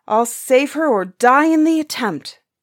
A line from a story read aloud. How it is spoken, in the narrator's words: the brother cried